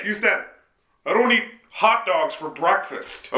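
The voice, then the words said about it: Exaggerated fattened-up voice impression. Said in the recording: “I don't like your impression of me. You really fatten up your voice for that. It's bullshit. Okay? I don't just talk like that.”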